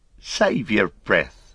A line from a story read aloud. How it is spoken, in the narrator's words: laughed Merry